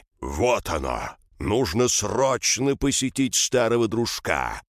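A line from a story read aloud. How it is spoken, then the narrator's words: Booming echoing voice. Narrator (Russian): прогремел на всю пещеру голос Крона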